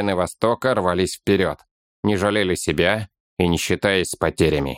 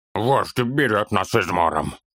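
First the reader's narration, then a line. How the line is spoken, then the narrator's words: Hoarse, strained. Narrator (Russian): хрипло выдавил из себя Торин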